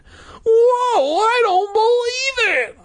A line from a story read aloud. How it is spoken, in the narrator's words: I cried, as annoying as ever